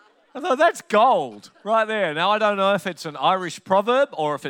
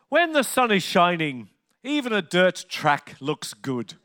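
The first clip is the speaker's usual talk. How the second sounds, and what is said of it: Imitated Irish accent. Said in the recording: “which sounded stunning in an Irish accent, and I'll do my very best to emulate it”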